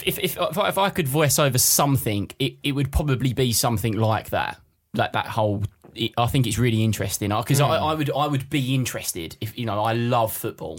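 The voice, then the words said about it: Strong regional Essex accent. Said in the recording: “You couldn't do it with your accent though... Proper lack the region in it... an Essex boy that can't talk”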